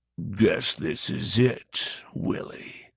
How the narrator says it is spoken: he said, his voice a low, guttural rumble

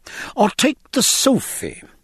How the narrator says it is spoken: cried the master, anxious to bring his crumb of comfort

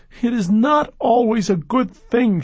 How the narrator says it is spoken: she shouted, startling him

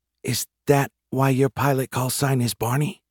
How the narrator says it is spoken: Jeremy leaned over to whisper to me

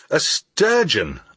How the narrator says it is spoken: I exclaimed

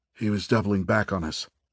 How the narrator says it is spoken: Farkas said, now in a hushed voice

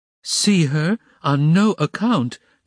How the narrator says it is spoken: cried Pulcheria Alexandrovna

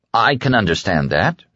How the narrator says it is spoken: he said stiffly

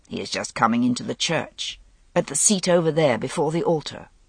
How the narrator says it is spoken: Gaulois muttered

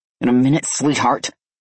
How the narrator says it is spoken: I growled

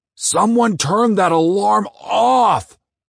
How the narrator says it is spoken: I hollered

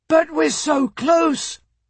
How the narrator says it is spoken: Michael shouted

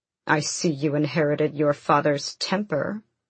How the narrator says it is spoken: Darrow sneered

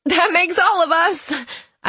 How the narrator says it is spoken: I tell her, laughing

